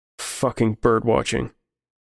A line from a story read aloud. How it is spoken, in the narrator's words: Reese said